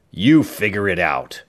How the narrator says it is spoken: the man snarled

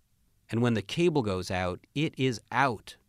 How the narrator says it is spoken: said Santa

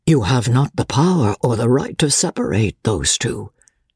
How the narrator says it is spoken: Dobbin answered in a low voice

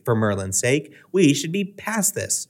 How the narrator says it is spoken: Hermione snapped

